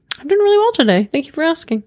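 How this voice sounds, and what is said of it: Customer service voice. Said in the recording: “That was my customer service voice.”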